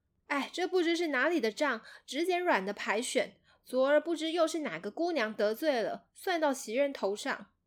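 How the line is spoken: Sighing. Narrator (Chinese): 宝玉叹息，说了

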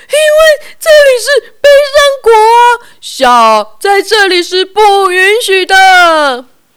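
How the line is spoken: Pitiful crying king. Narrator (Chinese): 国王哭得可怜兮兮的说

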